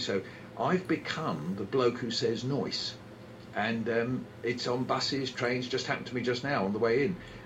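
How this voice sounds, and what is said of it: London accent. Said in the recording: “my London accent ... Americans think I'm saying noice”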